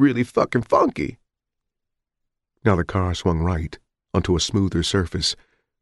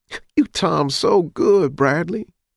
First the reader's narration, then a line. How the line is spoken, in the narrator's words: Stacy giggled, not intimidated in the least